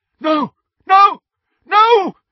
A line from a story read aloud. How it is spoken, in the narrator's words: someone was shouting